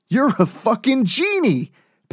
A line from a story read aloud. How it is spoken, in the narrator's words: Penn exclaimed